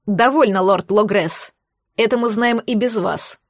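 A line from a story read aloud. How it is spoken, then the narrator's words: Rough interruption. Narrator (Russian): грубо прервал бывшего министра Люциус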